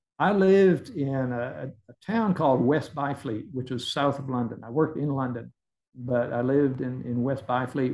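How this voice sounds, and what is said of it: Texas accent. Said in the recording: “your Texas accent”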